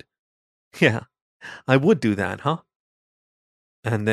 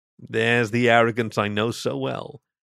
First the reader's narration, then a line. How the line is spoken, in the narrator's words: the lizard replied with a chuckle